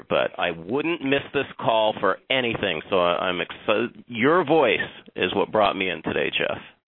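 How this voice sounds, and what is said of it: Husky voice from being sick. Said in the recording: “I do have my sexy voice on today because I'm a little bit under the weather ... when Mr. Neiman brings his sexy”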